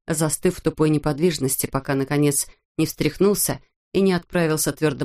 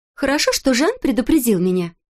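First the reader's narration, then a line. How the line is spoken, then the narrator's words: Cheerful chirping from behind. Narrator (Russian): весело щебетала сзади Элоиза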